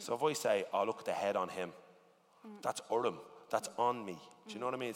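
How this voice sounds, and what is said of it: Irish-influenced English accent. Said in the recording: “The way I speak English is fucking mental ... the way I talk in my accent is the way Irish sentences are like constructed”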